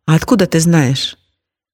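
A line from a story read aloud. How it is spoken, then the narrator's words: Relieved. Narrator (Russian): Мария вздохнула с облегчением и сказала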